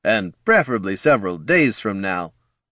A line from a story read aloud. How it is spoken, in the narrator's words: laughed Boomer